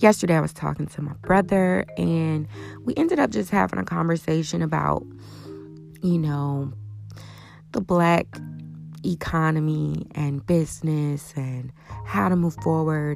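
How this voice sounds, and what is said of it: Slightly raspy voice. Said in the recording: “Excuse my voice. ... It's a little raspy.”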